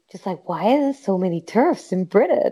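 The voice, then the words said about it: Put-on American accent. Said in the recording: “I love your American accent.”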